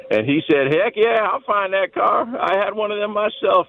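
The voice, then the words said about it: Poor imitation of another person's voice. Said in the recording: “That was a terrible impression.”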